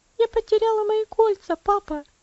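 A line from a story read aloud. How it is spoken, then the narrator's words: Bursting into sobs. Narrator (Russian): она разрыдалась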